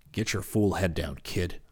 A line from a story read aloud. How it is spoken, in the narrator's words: snapped